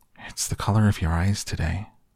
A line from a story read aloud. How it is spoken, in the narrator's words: I sighed, surrendering